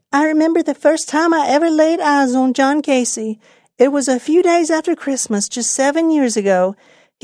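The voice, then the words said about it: Put-on old lady voice. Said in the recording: “I'm doing my old lady's accent.”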